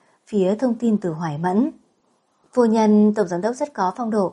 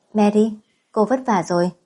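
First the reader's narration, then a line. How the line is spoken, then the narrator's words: Smiling speech. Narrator (Vietnamese): Chị mỉm cười rồi nói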